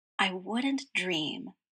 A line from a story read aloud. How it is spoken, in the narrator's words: murmured